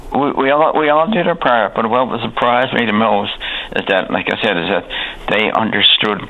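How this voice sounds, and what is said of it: Newfoundland townie accent. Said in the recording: “I'm a townie. I mean, with a strange townie accent”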